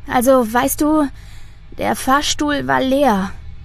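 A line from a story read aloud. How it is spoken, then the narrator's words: Tired smiling speech. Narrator (German): sagt sie schließlich und lächelt dabei müde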